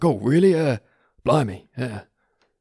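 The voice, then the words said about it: Impression of Mundungus Fletcher. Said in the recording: “That was a good impression. ... So you're doing Mundungus' voice from now on then.”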